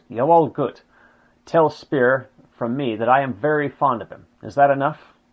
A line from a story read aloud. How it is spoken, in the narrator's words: Hitler drummed his fingers absently on the windows, then curtly answered